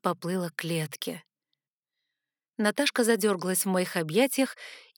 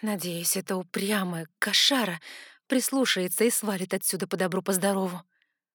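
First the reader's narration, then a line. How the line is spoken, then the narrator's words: Sighing. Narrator (Russian): Вздохнула я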